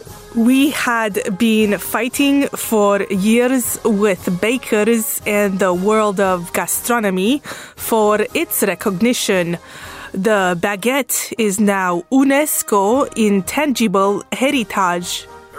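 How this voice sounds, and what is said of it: Romanian accent. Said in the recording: “whose Romanian accent is the closest thing we have in the building today”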